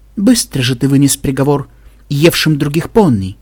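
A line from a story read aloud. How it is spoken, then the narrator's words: Soft, gentle. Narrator (Russian): мягко произнесла она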